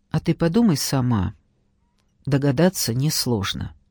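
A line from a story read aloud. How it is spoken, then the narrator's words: Quiet speech. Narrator (Russian): негромко проговорил Паша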